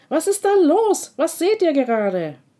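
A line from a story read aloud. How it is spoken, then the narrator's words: Impatient calling out. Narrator (German): Tara kann es gar nicht aushalten und ruft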